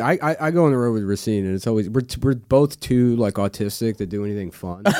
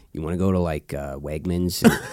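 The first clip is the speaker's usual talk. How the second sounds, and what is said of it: Imitates another person's voice. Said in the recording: “That's a really good impression. ... That's a great impression.”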